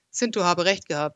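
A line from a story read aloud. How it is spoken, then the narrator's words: Tired. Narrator (German): sagte er müde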